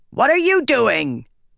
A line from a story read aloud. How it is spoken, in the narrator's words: a voice shouted